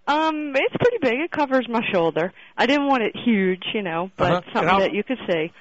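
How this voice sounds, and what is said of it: Baltimore accent. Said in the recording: “Don't make fun of the Baltimore accent ... Bad, it's bad.”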